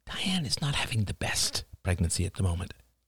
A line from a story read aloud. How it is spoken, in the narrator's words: whispered William